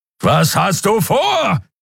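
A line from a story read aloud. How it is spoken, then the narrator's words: Roaring again. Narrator (German): brüllte Kero wieder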